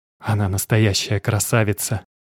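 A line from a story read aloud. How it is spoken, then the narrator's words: Barely audible, admiring. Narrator (Russian): едва слышно сказал Макс, который никак не мог налюбоваться своей дочерью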